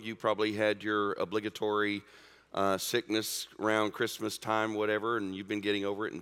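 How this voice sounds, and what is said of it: Sick, rough-sounding voice. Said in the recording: “I sound terrible. I sound worse than I feel ... fighting off a touch of a cold or flu”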